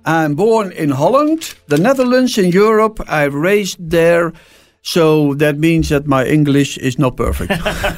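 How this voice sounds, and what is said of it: Non-native English accent. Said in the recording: “that accent”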